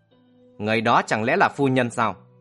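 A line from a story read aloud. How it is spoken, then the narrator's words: Cold, harsh question. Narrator (Vietnamese): Trầm Kha lạnh lùng hỏi gằn lại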